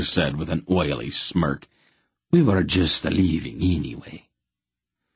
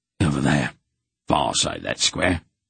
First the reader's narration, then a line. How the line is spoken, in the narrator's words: he said to Wolf in a hoarse whisper